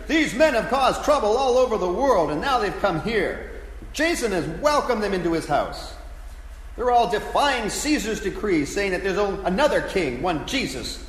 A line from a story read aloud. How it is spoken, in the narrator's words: shouting